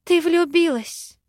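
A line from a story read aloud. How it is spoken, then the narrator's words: Breathless exhale. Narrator (Russian): выдохнула Вера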